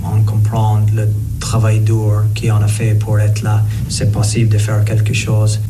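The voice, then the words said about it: French spoken with foreign accent. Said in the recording (French): “Le bel accent de Ronan O'Gara”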